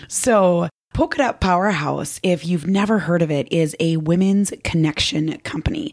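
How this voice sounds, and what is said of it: Worn, below-par voice. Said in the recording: “As you can hear, my voice is not quite up to par. ... I tried everything to rejuvenate it”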